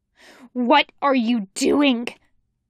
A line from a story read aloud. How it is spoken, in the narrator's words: Shimomori snarls